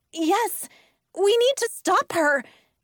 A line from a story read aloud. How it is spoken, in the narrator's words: I cried